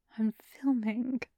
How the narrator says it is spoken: Chef Shun says softly

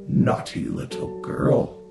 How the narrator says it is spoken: hissed

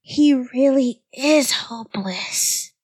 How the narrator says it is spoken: cried the three of them in a whisper

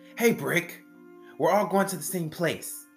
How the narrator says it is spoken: Liz blurts, annoyed by them bumping into her

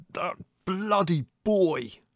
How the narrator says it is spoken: he said at last, in a sort of muted roar

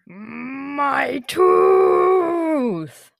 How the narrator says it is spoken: Arin roared again

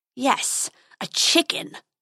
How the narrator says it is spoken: snarled the dragon

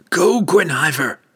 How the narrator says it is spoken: shouted as he ran along the wall, leaping wildly, hacking away

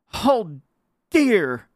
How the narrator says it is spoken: cried the little bear boy

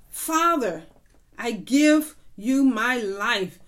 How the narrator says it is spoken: said

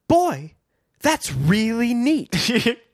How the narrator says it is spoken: Biff and Chet exclaimed in admiration

